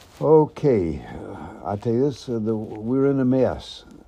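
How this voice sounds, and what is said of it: Slight put-on Southern accent. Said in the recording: “they throw a little Southern accent in there”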